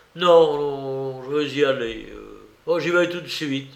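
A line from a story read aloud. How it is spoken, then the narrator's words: Stammered. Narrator (French): balbutia-t-il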